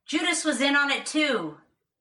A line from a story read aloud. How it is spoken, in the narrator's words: He did not shout